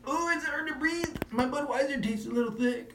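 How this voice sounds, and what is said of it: Imitates another person's voice. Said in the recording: “great Cowboy impression ... Cowboy at altitude”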